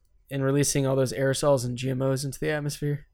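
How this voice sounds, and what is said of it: Sarcastic, facetious tone. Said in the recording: “I'm being sarcastic. ... That was facetious.”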